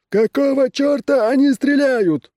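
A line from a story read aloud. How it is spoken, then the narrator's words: Captain's shout. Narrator (Russian): крикнул капитан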